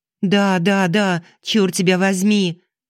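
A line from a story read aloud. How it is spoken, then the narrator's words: Shouted out. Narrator (Russian): выкрикнула Алиса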